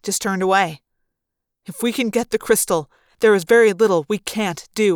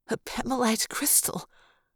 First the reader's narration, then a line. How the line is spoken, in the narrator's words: Maria whispered